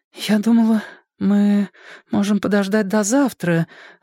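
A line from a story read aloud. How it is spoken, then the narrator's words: Timid woman. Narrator (Russian): робко начала она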